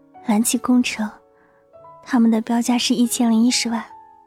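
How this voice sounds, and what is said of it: Quiet, soft-spoken voice. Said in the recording (Chinese): “小声地说，头却依旧垂着 ... 即使江城声音再小，他还是能听清的”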